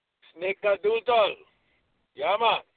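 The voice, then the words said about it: Mixed put-on Jamaican-style accent. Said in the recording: “It was kind of a mix of Jamaican and everything.”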